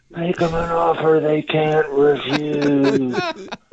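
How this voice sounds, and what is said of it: Poor Don Corleone impression. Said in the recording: “a Don Corleone offer... There's my terrible impression... Marlon Brando spinning in his grave”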